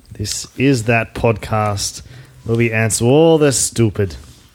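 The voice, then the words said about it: Accent shifts partway through sentence. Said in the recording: “Halfway through that sentence, I changed accent.”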